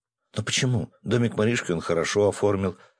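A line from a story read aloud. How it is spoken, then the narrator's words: Timid objection. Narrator (Russian): робко возразила Таня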